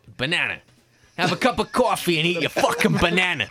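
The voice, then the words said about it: Put-on New York accent. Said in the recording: “Can you say banana in American accent?... I can only do it in a kind of New York”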